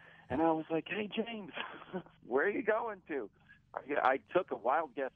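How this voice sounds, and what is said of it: Usual voice. Nothing is said of it.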